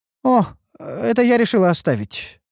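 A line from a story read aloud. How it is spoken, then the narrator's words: Innocent tone. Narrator (Russian): откликнулась Ульданта невинным голосом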